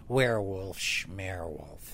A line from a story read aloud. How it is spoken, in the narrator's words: Mom sneered, muttering